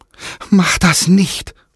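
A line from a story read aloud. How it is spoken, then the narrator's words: Frightened group pleading. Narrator (German): flehten verängstigt die Dorfbewohner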